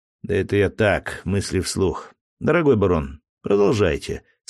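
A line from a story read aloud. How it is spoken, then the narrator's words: Calm reply. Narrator (Russian): спокойно ответил я ему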